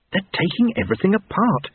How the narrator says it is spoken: whispered Lobsang

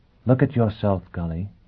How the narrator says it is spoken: she said quietly

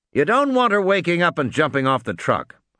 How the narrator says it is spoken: Harding snapped

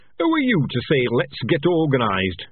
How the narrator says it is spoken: He said sharply

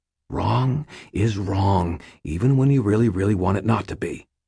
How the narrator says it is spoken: I said quietly

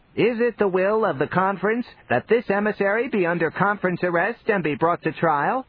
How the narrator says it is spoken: He shouted in a squalling voice

